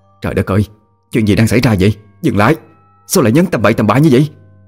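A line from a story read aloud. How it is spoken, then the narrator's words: Disbelieving scream. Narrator (Vietnamese): Vị bác sĩ không thể tin vào những gì mà họ chứng kiến mà hét lên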